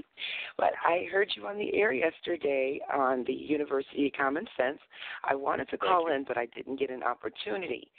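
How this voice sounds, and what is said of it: Sick, under-the-weather voice. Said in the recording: “I'm a little under the weather. ... So please excuse my voice right now.”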